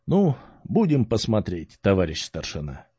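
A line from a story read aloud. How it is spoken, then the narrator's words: Radio operator sighs. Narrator (Russian): вздохнул наш радист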